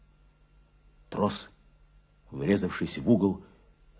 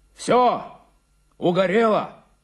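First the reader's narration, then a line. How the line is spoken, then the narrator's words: Shouting into phone. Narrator (Russian): закричал в трубку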